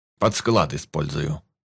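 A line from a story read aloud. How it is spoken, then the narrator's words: Father's grumble. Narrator (Russian): буркнул папа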